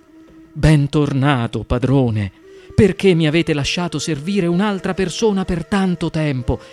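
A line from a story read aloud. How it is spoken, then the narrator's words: Surprised genie exclaiming. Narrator (Italian): esclamò sorpreso il genio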